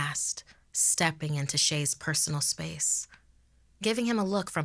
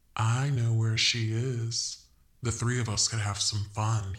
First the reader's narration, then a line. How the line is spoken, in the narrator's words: he purred